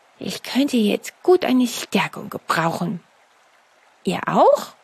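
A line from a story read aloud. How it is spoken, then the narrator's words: Murmured. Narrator (German): Mokko murmelte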